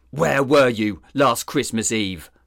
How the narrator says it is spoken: Sizemore snarled

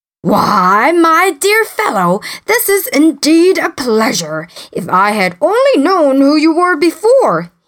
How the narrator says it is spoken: exclaimed

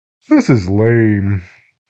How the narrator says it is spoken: said with a yawn

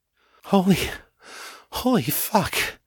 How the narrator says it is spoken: gasped

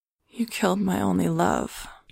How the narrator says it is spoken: she said in a simple voice, a quiet voice

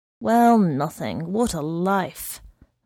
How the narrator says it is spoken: murmured the man

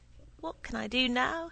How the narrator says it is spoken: he exclaimed

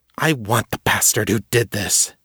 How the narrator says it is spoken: Jenna whispered fiercely in Abby's ear

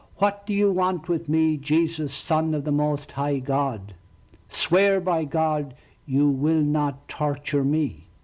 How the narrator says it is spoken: shouted at the top of his voice

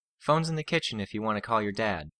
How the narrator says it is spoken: Lisa said

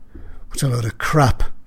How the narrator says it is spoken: muttered under his breath

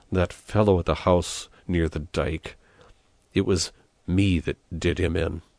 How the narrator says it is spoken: muttered from behind clenched teeth

